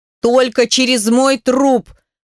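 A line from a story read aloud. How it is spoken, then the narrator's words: Yelling. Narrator (Russian): орал Петр Михайлович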